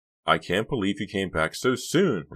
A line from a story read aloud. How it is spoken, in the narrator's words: Riva exclaimed